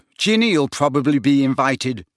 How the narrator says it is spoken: snapped Ron, who did not seem to have taken kindly to being ignored by Slughorn

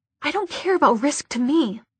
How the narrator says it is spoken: he hissed

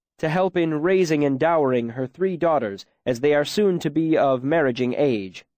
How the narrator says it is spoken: Bast said loudly across the room

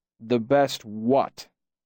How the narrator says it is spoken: my father rumbled

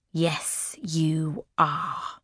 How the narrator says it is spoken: Raven says, her voice as deadly as a snake's hiss

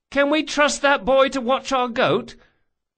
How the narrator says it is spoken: Locke cried above the din

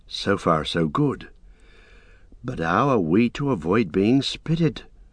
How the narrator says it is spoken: Mary stirred and whispered softly

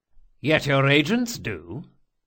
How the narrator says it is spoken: he said cheerfully

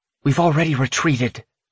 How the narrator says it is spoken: Iris snaps

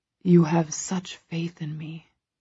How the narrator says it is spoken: he whispers

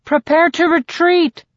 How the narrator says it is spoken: Jackson hollers

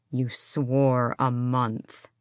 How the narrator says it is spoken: his father growled

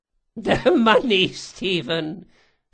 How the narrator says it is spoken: she chuckled

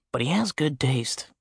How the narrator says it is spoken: Jack whispered to me

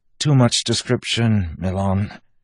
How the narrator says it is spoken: Wax said, his voice strained

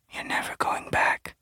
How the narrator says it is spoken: whispered

